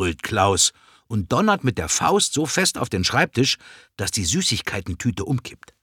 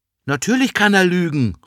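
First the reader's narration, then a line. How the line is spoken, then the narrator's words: Calling out. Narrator (German): ruft Ella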